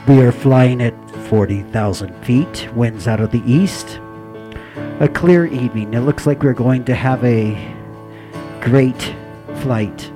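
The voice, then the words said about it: Imitates an airline captain's announcement voice. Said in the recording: “I'm going to try to be the captain. This is the captain speaking.”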